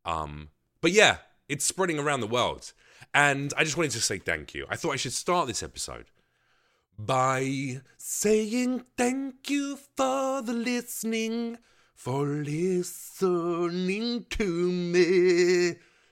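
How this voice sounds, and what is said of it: Husky, sick-sounding voice. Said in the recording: “this sickness in my throat makes my voice sound real so sensual”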